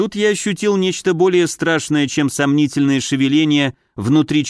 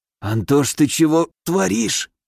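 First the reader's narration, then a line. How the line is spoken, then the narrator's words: Hoarse rasp. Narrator (Russian): прохрипел я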